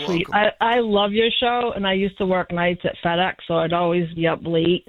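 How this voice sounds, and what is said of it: Regional accent. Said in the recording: “I hate my accent”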